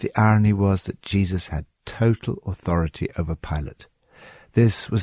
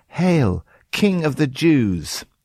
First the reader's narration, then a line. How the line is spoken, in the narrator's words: The soldiers shout